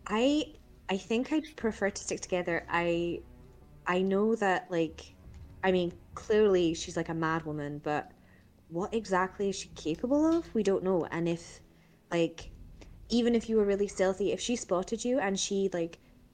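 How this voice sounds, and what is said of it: Put-on character accent. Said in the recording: “I'll do this in accent because this is good stuff ... get in the character”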